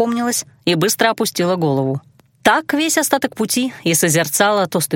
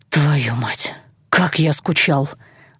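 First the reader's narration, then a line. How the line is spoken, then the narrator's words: Breathless, passionate exhale. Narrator (Russian): выдохнул он в губы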